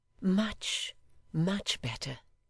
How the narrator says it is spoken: whispered Emma

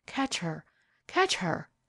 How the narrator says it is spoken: Her lips were murmuring

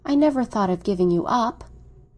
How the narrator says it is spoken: she cried, with a long, tender murmur

